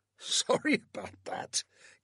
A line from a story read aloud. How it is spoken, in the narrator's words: Caroline said with a laugh